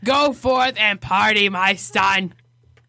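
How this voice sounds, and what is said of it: Raspy old-smoker priest voice. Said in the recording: “I sound like an old smoker ... That's my priest voice ... That's a great priest voice”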